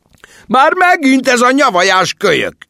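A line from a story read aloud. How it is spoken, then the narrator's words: Angry shout. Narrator (Hungarian): üvöltött Larry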